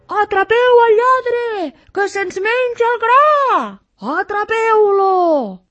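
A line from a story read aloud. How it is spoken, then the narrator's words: Furious farmers shouting. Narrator (Catalan): cridaven els pagesos enfurismats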